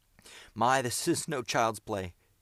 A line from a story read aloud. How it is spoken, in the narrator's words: gasped Miles, as there was a frightful explosion below